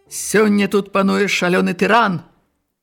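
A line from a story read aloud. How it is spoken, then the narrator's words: Angry, almost no accent. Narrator (Belarusian): Злосна зваўся Джавані, які гаварыў па-беларуску практычна без акцэнту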